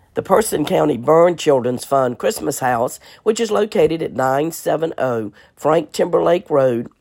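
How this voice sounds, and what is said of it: Hoarse, strained voice. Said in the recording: “excuse my voice this week. I have been battling laryngitis.”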